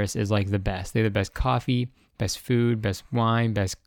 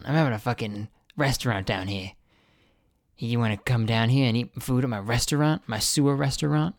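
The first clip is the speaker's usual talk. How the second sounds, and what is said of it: Put-on New York or Boston accent. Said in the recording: “he has like a New York accent for some reason ... Is that a New York accent or a Boston one?”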